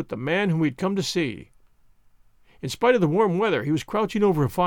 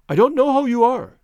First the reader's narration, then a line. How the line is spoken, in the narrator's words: he cried